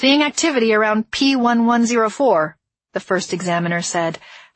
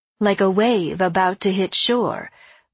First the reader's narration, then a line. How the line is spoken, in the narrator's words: the sharp-edged woman purred